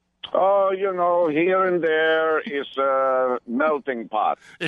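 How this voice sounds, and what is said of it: Distinct German-sounding accent. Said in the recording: “I can't help but detect a distinct Aryan accent”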